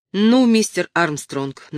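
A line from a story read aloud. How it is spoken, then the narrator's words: Authoritative tone. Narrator (Russian): начал сразу Баррес властным тоном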